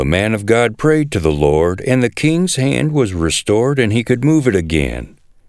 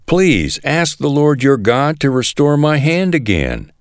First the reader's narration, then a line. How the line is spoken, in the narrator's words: The king cried out to the man of God